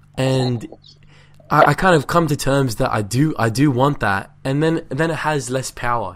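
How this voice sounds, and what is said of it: Slightly croaky voice. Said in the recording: “my voice is a little croaky.”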